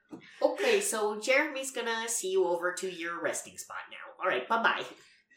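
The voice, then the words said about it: Fargo-style character voice impression. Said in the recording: “Is this voice inspired by the classic film Fargo? ... You're doing a spot-on impression of her voice”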